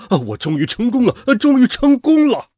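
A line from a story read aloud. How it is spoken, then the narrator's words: Loud shout. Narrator (Chinese): 一个声音大声喊道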